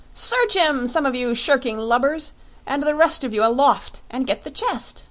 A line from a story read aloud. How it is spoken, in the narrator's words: cried